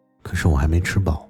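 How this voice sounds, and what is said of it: Quiet, soft voice. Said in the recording (Chinese): “小声的说”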